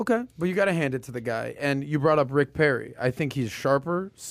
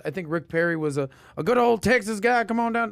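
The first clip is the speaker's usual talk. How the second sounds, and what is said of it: Country Texas twang impression. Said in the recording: “great impersonation right there ... yours was spot on ... country twang”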